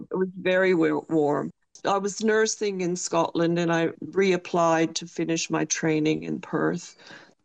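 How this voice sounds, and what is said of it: Scottish accent with Canadian touch. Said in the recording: “my accent is a touch Canadian as well as Scottish”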